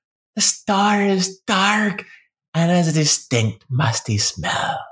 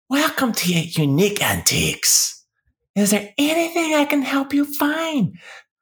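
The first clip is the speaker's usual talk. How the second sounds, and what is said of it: Raspy old woman's voice. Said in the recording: “A raspy old feminine voice calls from the corner.”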